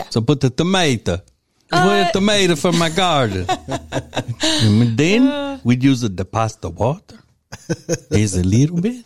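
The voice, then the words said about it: Put-on old Italian man accent. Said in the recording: “what is the sexiest accent on a man for you? ... Italian? ... Maybe not old Italian man, but yeah, young Italian man.”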